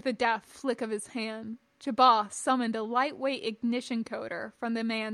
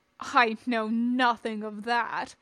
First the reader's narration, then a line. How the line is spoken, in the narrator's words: Chabas said scornfully